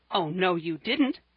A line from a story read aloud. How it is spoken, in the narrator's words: cried Percy, in the greatest alarm